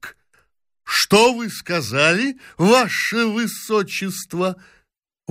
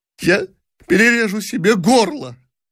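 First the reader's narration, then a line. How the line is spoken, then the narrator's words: Sobbing boy. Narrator (Russian): всхлипывая, сказал мальчик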